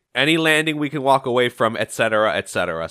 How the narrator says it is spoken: Sonic says

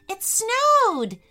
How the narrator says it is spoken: shouted Jack

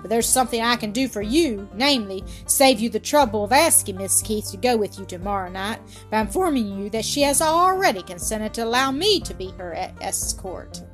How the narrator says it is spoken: growled Ormsby

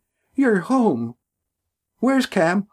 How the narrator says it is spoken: cried

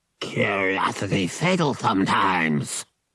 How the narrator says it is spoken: Merg growled

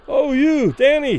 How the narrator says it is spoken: Those further away, unable to suppress their admiration, cried loudly

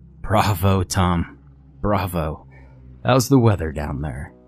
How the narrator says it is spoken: He chuckled a bit

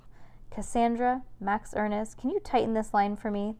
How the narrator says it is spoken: their host asks

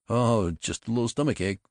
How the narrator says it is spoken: it was the doctor who chuckled

